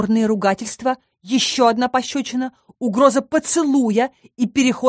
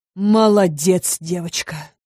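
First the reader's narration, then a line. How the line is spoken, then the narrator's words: Relieved exhale. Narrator (Russian): с облегчением выдохнул он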